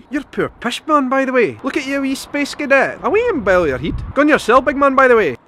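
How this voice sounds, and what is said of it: Higher, faster, sing-song Glaswegian accent. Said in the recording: “Over on the west coast, they speak a wee bit higher, higher pitch, and a wee bit faster ... I'm not very good at the Glaswegian accent ... Not exactly right, but it's along those lines ... They like to sing when they speak in Glasgow”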